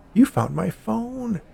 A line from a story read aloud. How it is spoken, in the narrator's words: the old woman exclaimed